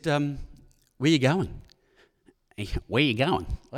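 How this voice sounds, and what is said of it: Weak put-on American accent. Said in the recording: “I didn't do the American accent as well as someone else who was here talking earlier.”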